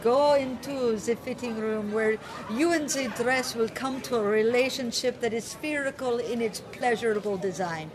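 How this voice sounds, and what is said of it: Imitates a character's accent. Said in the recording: “she's got this accent”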